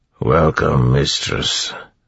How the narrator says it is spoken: the Chandra said in a growling, muffled voice

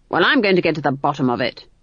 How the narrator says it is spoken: snapped Granny

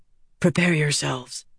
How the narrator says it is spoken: Andral whispered

